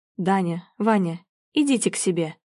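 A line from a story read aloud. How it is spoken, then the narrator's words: Quiet but firm. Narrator (Russian): Говорит тихо, но твердо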